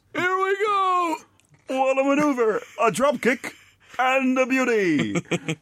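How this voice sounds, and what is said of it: Bad Gorilla Monsoon impression. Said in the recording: “That's him copying Gorilla. He's doing a very bad Gorilla Monsoon impression.”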